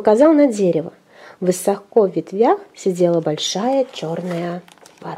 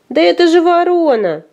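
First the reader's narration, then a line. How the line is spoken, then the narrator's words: Laughing. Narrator (Russian): засмеялся вареник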